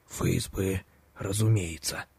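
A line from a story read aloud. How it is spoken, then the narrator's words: Sincere childlike whisper. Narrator (Russian): искренне и по-детски прошептал дядя Коля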